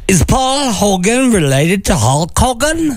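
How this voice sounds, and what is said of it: Put-on Australian accent. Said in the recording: “Yeah, that's a nice try. That's a good attempt. Maybe we should just stop with the accent here.”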